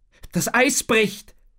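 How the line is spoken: Called out. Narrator (German): rief Tom

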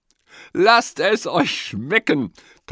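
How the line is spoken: Laughing. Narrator (German): Tante Else lacht

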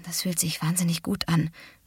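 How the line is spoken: Murmur. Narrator (German): murmelte Kate

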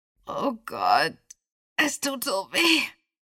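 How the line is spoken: Boy wailing. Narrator (German): jammerte der Junge

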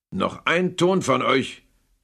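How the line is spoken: Growled. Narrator (German): knurrte Scrooge

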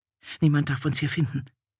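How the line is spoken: Fearful murmur. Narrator (German): raunte sie angstvoll ihrer Leibdienerin zu

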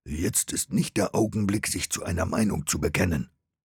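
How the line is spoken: Hissed in ear. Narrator (German): zischte Gaius Vespasian ins Ohr

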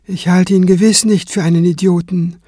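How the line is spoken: Calm reply. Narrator (German): erwiderte Kranz ruhig

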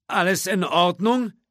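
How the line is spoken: Whiny call upward. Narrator (German): rief der Grafikdesigner in quengelndem Tonfall herauf

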